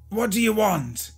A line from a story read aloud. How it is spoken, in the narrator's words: Peter cried out